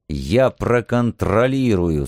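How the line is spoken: Through gritted teeth. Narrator (Russian): сквозь зубы пообещал я

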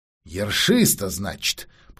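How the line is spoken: Grumbling. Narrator (Russian): проворчал он

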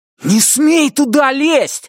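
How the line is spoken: Startlingly loud shout. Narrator (Russian): закричал Брайан так, что его младший брат испуганно отскочил назад

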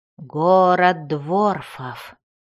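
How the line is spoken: Muffled, faint, distant. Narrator (Russian): ответил Бреннер, и его голос прозвучал глухо и еле слышно так, словно доносился откуда-то издалека

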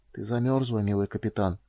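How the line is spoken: Hoarse whisper. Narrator (Russian): хрипло шепнул он

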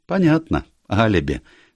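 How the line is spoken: Cheerful. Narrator (Russian): весело проговорила миссис Шайн

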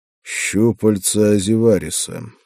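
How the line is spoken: Grim voice. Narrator (Russian): мрачно произнес я

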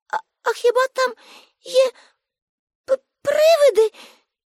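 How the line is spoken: Frightened question. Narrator (Ukrainian): злякано спитала Аніка

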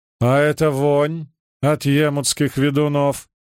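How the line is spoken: Snorting scornful man. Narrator (Russian): фыркнул Оддарт Фаскеллан, виконт Эшерих и смотритель Белой башни

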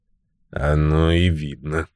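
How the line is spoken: Gloomy. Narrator (Russian): сказал Томми и мрачно добавил

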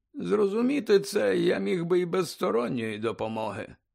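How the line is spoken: Sigh. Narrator (Ukrainian): зітхнув Дамблдор

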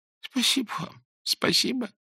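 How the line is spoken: Sobbing, repeating. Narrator (Russian): повторял, всхлипывая Клочков

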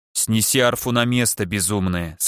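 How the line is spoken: Stern. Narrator (Russian): сказал он строго

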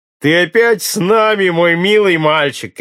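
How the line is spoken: Ecstatic joyful shout. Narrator (Russian): кричал вне себя от радости лучник

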